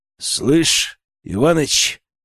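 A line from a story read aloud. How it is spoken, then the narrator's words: Growling. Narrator (Russian): рыкнул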